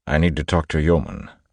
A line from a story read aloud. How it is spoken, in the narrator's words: Elland said